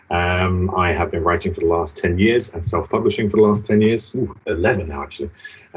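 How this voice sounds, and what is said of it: British English accent. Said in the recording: “I'm a UK author, hence the accent”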